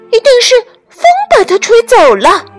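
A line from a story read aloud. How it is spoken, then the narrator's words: Startled squeal. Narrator (Chinese): 松鼠惊叫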